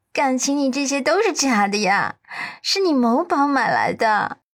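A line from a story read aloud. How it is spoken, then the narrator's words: Bursting into laughter. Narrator (Chinese): 阮南希扑哧一声笑了出来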